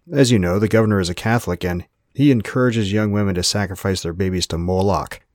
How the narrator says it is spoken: Joseph growled

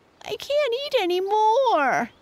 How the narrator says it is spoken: whined

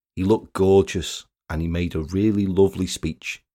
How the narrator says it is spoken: she said

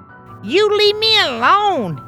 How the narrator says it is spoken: he squeaked

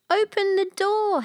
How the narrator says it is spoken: howled Hyena

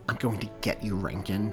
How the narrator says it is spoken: Daniel muttered

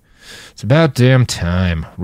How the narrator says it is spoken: Roland grumbled

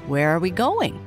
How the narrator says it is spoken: he asked

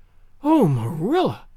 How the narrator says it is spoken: exclaimed Anne

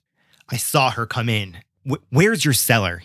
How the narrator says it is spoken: he snarled

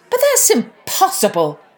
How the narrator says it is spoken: cried Maggie's mother

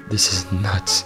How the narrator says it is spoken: he muttered

